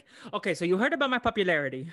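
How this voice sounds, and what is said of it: Imitated cartoon character accent. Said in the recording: “I need to work on my Doofenshmirtz accent still”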